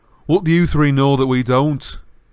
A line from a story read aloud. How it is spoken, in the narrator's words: said Ron irritably